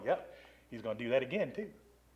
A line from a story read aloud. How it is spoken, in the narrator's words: they're all kind of chuckling, going